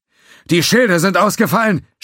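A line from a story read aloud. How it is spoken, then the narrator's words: Shouting over noise. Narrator (German): schrie Mock über den Lärm hinweg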